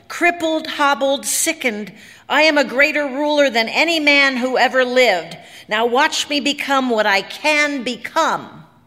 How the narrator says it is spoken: he bellowed

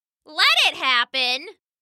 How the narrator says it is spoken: hollered

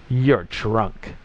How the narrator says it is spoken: it sneered

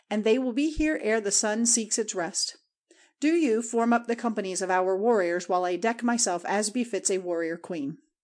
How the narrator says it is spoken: she answered with a glad laugh

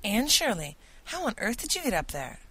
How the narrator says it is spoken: he exclaimed

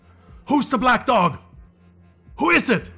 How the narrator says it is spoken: screaming in his face

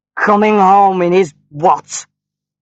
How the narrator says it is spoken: shouted her husband

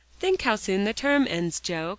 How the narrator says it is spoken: cried Polly

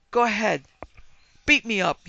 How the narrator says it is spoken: he yelled at Hal, his face twisted and blotchy

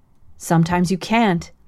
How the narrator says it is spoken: said Mrs

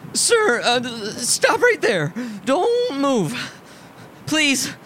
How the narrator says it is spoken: His voice fluttered without authority

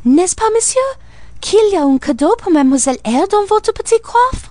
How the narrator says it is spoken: Adèle cried out

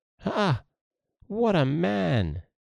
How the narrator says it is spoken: exclaimed the lad

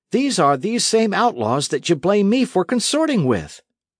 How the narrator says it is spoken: cried Dick

